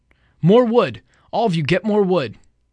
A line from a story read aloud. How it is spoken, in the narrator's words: Ralph shouted